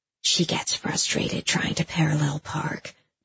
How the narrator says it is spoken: my mom whispers

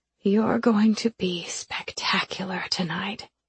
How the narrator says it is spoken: she whispers

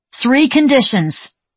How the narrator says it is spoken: she yelled

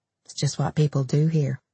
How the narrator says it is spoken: Dennis mumbled without looking up

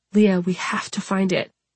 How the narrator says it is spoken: she whispered

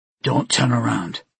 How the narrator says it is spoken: he said in a low voice

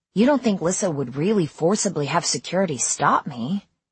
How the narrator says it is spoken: He sighed

